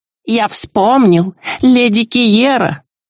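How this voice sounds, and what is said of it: Mocking imitation of the elf. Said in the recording (Russian): “передразнила девушка улетевшего эльфа”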